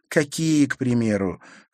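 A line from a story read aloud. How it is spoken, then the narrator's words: Heavy sigh. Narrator (Russian): Харри тяжело вздохнул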